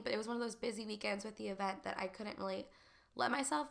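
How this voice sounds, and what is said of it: Sick, congested-sounding voice. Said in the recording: “I don't know if y'all can tell from my voice, but I'm actually sick”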